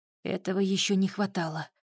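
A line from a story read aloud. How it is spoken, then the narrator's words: Whisper. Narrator (Russian): прошептал Макс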